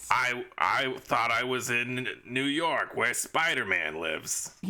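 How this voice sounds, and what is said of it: Thick New York accent impression. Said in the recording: “thick New York accent”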